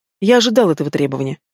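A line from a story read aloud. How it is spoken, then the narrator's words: Calm reply. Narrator (Russian): спокойно откликается Тимирязев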